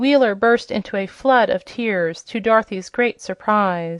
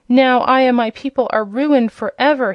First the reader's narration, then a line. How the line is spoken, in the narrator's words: he sobbed